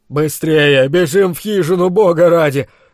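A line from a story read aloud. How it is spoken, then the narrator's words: Hoarse rasp after gulp. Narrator (Russian): Громко сглотнув, прохрипел слуга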